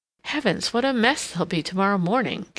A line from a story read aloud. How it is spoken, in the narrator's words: Katharine exclaimed